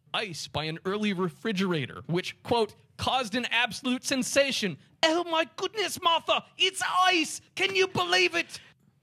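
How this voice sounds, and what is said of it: Put-on British accent. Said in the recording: “This was me being the British self.”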